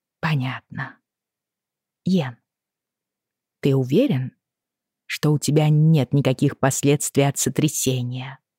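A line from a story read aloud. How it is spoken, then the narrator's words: Calm with hidden worry. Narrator (Russian): Она сказала это довольно спокойно, но, видимо, тревога все же прозвучала в ее голосе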